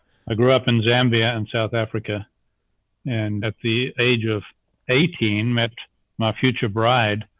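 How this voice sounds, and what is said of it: Slight South African accent. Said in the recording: “anyone that hears your voice can hear a slight bit of an accent ... I'm an accent without a country now after 43 years of having left South Africa”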